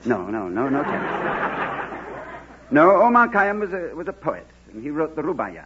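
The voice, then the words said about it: Distinctive accent. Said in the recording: “I sure admire that accent of yours, Mr. Coleman. ... It's a darb.”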